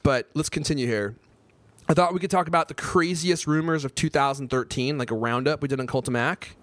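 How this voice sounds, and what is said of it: Hoarse, strained voice. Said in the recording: “I'm losing my voice,”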